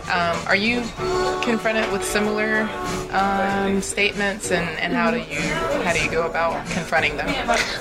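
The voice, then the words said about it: American English accent. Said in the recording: “As a U.S. American... people hear my accent”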